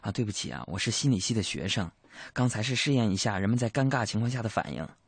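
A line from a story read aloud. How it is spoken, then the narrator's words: Quiet, young woman. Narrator (Chinese): 这个女生低声对我说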